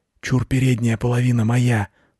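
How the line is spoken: Cat whispering. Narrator (Russian): шепнул кот

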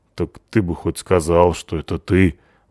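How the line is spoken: Embarrassed mutter. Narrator (Russian): буркнула Натаха смущенно

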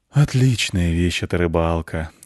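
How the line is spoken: Lazy musing cat. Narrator (Russian): лениво рассуждал кот

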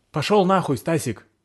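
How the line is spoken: Shouted reply. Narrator (Russian): крикнул я в ответ

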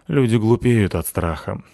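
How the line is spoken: Sighed. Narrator (Russian): вздохнул я

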